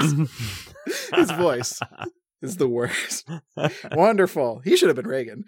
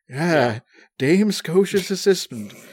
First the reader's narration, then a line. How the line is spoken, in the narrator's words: he exclaims